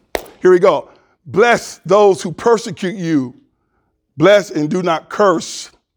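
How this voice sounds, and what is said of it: Loud preaching voice. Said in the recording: “gave me a loud voice.”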